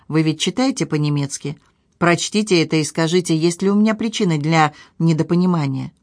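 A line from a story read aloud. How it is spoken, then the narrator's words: Calm, hopeless speech. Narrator (Russian): произнесла спокойно и безнадежно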